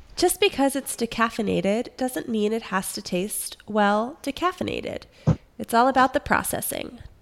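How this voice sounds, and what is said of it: Mock wine-description voice. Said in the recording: “put on my wine voice”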